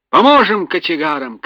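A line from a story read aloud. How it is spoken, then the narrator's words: Boatswain shouting. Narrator (Russian): крикнул боцман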